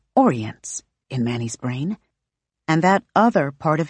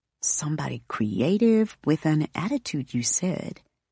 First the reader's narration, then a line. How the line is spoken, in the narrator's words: Brooklyn murmurs